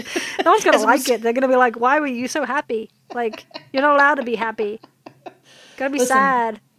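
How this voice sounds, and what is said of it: British English accent. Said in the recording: “I'm British, right? That's my accent, right?”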